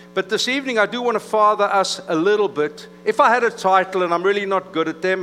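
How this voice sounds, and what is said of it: Speaks with a noticeable accent. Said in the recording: “I apologize for my accent”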